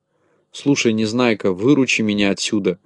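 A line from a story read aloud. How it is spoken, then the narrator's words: Whispering. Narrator (Russian): зашептал Ворчун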